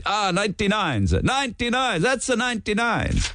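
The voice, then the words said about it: Put-on Italian accent. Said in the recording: “they'd say it in an Italian accent.”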